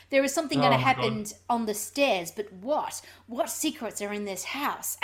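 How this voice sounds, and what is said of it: Imitates another person's voice. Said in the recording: “in that very Hitchcock voice, which I can't do”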